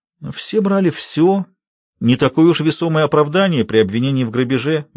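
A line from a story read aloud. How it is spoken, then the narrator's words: Gentle. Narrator (Russian): мягко указал Барби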